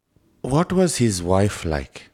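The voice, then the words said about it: Put-on Indian English accent. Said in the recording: “Indian English. please talk to me in Indian English. ... So to speak to them, I have to sound like this.”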